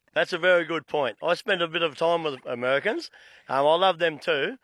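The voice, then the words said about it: Mild Australian accent. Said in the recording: “I've got a bit of an Aussie accent”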